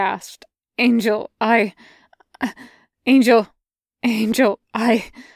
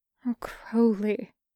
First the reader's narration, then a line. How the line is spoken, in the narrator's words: he murmured